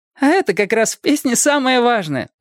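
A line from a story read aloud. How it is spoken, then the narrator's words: Laughing. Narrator (Russian): засмеялась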